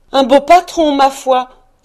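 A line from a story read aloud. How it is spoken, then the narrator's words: Emotional exclamation. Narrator (French): s'écria Mistress Cratchit, rouge d'émotion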